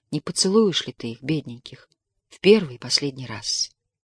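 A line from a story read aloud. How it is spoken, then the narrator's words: Involuntary female whisper. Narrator (Russian): Невольно она шепнула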